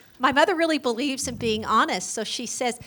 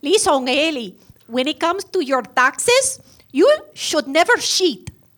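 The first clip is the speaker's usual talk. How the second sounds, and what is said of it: Imitated mother's strong accent. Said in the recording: “Her mom really does sound like that... Pure accent.”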